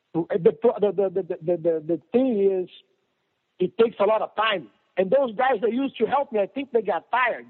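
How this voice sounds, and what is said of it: Brazilian accent. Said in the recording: “Has a Brazilian accent, right? ... A Brazilian twist.”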